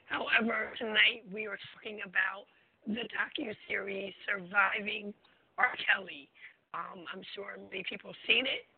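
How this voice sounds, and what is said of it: Sick, cold-affected voice. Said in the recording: “I apologize for my voice. I'm fighting a cold.”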